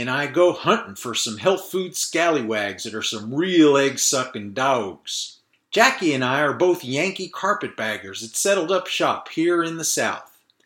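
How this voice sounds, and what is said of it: Fake Southern American accent. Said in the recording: “that fake Southern accent is tiring to do”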